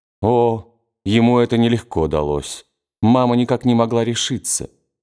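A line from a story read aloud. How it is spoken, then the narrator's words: Mock-serious important tone. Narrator (Russian): Анетта ответила с важностью, тем особенным тоном, какой она принимала, когда шутила, сама при этом оставаясь серьезной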